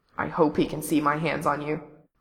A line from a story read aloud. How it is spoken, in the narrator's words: in a quiet growl